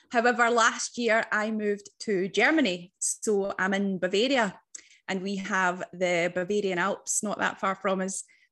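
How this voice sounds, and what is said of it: Scottish accent. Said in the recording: “I'm from Scotland, as you can probably hear with my accent.”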